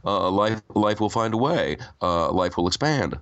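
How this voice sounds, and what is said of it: Jeff Goldblum impression. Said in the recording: “my Jeff Goldblum impression”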